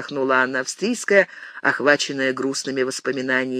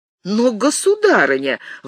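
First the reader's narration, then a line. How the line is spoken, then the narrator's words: Exclaiming. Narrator (Russian): воскликнул Филипп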